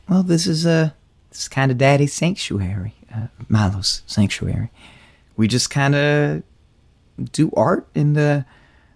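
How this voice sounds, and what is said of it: Speaks with a noticeable accent. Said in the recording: “nice accent.”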